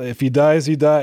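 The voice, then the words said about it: Dolph Lundgren impression, fake Russian accent. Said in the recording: “my poor impression of Dolph Lundgren trying to sound Russian ... it was pretty good.”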